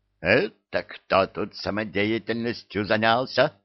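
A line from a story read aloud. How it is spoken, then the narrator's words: Menacing veteran's demand. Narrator (Russian): Грозно вопросил бывалый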